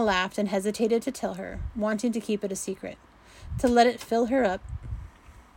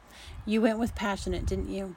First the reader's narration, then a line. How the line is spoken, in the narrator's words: Missy asked softly